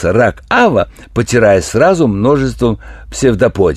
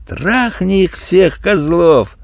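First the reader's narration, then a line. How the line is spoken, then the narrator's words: Joyful. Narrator (Russian): добавил радостно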